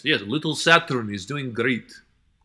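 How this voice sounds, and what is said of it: Put-on Russian accent. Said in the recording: “That's something you wish you could hear in a Russian accent.”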